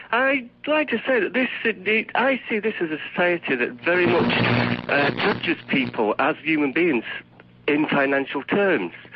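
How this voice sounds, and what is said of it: Northern English Manchester accent. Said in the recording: “Locate the source of that accent ... I'm from England ... Manchester. Northwest.”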